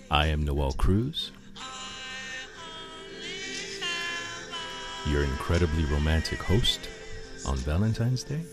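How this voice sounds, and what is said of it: Over-the-top romantic DJ voice. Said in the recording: “using my romance DJ voice, which is absolutely ridiculous”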